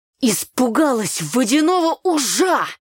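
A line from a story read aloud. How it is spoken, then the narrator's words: Shouting. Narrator (Russian): закричал Митька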